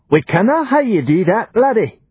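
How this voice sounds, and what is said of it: Thick regional dialect accent. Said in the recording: “his accent thickening into dialect from sudden alarm”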